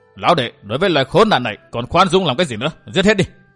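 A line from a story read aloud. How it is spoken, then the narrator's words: Angry shout. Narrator (Vietnamese): Hồi Xuân Ông nổi giận quát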